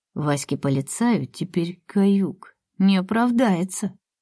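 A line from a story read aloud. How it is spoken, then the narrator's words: Laughing whisper. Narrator (Russian): прошептал на ухо Боря, … он смеется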